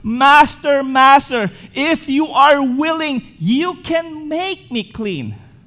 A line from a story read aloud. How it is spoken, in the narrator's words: the leper cried out